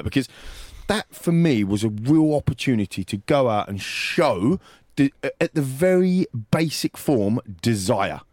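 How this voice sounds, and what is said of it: Frustrated, wound-up tone. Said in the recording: “You can hear it in my voice, listeners. Why I'm wound. I'm a bit frustrated about it”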